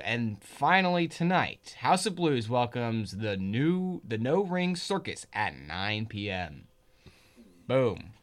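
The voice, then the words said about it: Over-the-top radio DJ voice. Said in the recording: “That was a crazy radio voice you just put on. ... permanent radio DJ voice”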